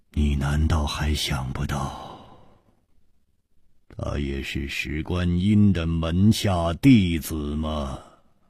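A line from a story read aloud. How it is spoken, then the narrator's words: Long sigh, word by word. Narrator (Chinese): 楚留香长长的叹了一口气，一字字的说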